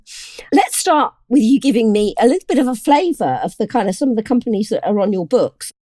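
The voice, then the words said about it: Hoarse, croaky voice. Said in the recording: “my voice is a little hoarse ... I am still suffering with a little bit of a croaky voice”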